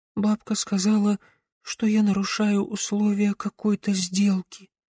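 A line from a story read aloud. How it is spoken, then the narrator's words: Barely audible. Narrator (Russian): едва слышно произнесла Ида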